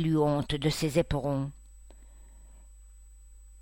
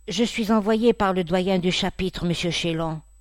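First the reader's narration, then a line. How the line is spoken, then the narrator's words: Timid. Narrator (French): répondit-il timidement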